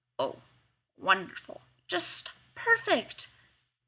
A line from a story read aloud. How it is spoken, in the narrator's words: Rodney mutters